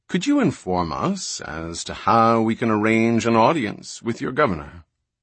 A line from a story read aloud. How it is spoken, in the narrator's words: Pritcher said smoothly